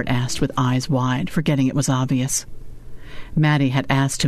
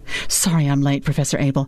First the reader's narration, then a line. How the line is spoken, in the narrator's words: said breathlessly through shiny lips